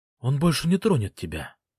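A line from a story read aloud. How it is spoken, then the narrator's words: Whisper. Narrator (Russian): прошептала Фелисити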